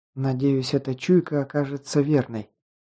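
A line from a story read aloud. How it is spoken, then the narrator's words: Whisper. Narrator (Russian): прошептала она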